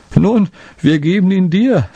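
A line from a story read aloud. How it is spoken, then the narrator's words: Laughing speech. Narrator (German): sagte er lachend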